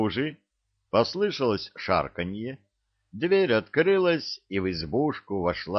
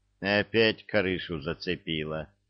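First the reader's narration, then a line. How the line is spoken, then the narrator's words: Sighing. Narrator (Russian): вздохнул Гена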